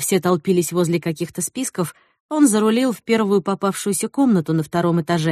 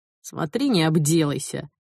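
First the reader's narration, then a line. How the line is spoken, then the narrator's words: Smirking snort. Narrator (Russian): хмыкнул Сэл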